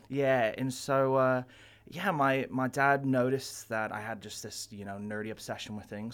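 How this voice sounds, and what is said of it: English-sounding accent, partly Californian. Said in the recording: “Where's the accent? ... my family's originally from England ... I don't sound quite Californian, but I don't sound quite English ... I think you sound English ... I get Canadian from time to time”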